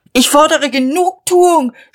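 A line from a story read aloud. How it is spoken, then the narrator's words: Shouted. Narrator (German): schrie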